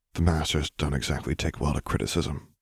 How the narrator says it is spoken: he muttered in quiet agreement

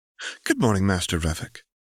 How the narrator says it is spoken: Bren said brightly

